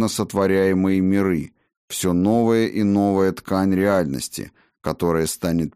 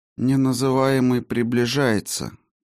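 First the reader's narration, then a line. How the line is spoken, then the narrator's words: Quiet, flat, expressionless. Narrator (Russian): тихо произнесла она бесцветным, лишенным выражения голосом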